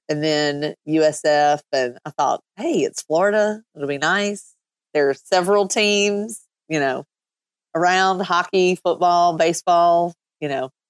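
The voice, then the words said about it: Kentucky accent. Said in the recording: “Your accent might be throwing them. You're from Kentucky originally, correct? ... I don't think my accent's going anywhere anytime soon”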